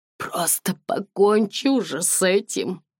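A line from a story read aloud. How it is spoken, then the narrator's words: Hoarse rasp. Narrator (Russian): прохрипела она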